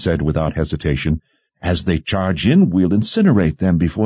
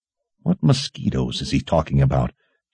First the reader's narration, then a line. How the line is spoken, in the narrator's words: General Rybish muttered under his breath